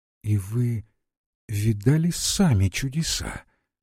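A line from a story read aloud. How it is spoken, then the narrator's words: Quiet question. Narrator (Russian): тихо вопросила его Лариса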